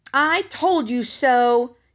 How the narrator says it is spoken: yelled Henry

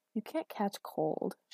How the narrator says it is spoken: she murmured

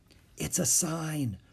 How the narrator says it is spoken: whispered Annie

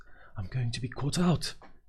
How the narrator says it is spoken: she added nervously

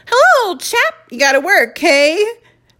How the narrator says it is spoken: Tom greeted Ben cheerfully

